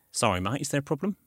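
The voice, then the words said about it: Put-on London accent. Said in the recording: “I'll do my London voice.”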